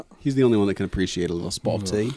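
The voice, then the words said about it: Put-on accent. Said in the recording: “I was talking about my accent.”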